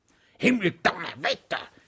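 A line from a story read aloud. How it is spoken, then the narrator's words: Shouted. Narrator (German): schrie ein Mitglied der Kommission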